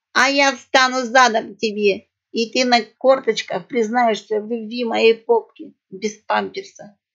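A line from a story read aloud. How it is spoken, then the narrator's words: Hysterical laughter. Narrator (Russian): истерически захохотала Алёнушка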